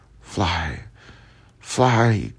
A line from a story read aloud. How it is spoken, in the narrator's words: cried she